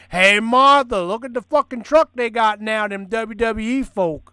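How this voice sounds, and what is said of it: Put-on trailer park accent. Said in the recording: “I like how you gave that the accent, like all wrestling fans live in trailer parks”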